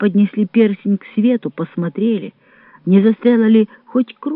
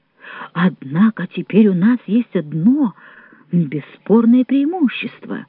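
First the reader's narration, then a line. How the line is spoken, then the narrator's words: Plain. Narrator (Russian): сказал капитан Добре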